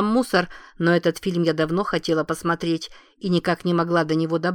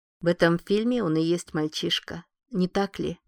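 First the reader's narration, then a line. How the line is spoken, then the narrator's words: Tired. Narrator (Russian): устало ответила Лиззи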